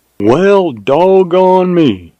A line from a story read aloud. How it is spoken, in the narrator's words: exclaimed in mild surprise